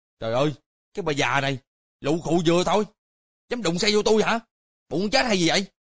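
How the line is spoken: Furious hasty shout. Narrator (Vietnamese): Y nộ khí xung thiên, hấp tấp quát

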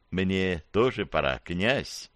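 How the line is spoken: Close whisper, young woman. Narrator (Russian): Девушка прошептала мне в самое ухо

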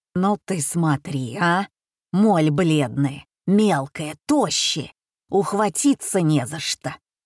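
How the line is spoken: Loud indignant whisper, woman. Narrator (Russian): Громким шепотом разорялась обширная маникюрша

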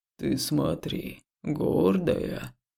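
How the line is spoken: Deep booming voice. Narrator (Russian): снова пробасил дубовый монстр

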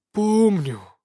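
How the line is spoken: Heavy sigh. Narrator (Russian): тяжело вздохнул Иван

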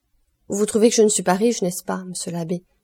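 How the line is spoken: Sighing. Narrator (French): dit en soupirant Caderousse

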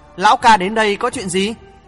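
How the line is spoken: Smiling question. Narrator (Vietnamese): Hoàng thượng chí mỉm cười hỏi

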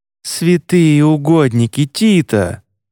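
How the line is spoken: Breathed out. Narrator (Russian): выдохнул Едриэль

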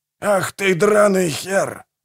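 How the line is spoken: Roared. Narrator (Russian): взревел Манфред

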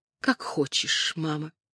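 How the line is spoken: Whisper. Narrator (Russian): Бланшет прошептала

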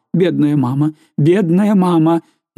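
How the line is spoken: Moaning. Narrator (Russian): Караван, стоя перед нею на коленях, стонал

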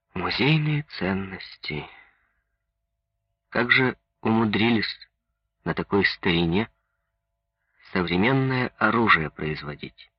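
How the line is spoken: Respectful and sad. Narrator (Russian): Минин сказал почтительно и грустно

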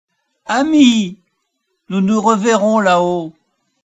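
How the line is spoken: Shouted while rising away. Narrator (French): tout en s'élevant, elle cria

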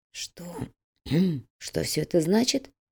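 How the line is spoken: Hoarse question. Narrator (Russian): хрипло спросил Макферсон

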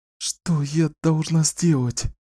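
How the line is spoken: Tearful whisper. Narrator (Russian): прошептала Кэлен сквозь слезы

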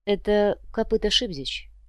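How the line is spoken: Quiet, commissar. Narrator (Russian): негромко произнес комиссар

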